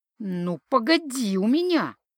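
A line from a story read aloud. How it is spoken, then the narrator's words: Angry hiss. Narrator (Russian): зло шипела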